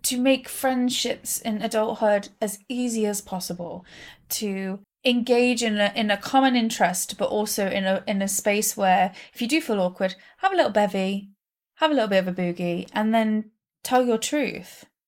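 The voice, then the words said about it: British accent. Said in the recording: “accent. ... A bugger is very different in the UK.”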